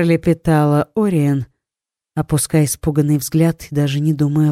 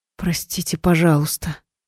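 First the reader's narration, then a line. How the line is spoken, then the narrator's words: Anxious near-whisper. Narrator (Russian): взволнованно повторила Ори, понижая голос почти до шепота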